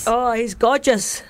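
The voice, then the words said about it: Poor put-on Scottish accent. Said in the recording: “That was a really poor Scottish accent.”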